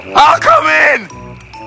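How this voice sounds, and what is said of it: Shouting. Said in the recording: “Why are you shouting?”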